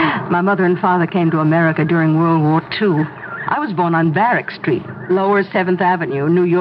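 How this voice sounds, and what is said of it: Usual voice. Nothing is said of it.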